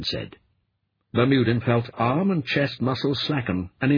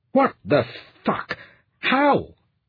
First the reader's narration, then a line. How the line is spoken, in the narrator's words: the captain yelped